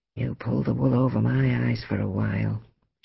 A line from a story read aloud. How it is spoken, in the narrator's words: she murmured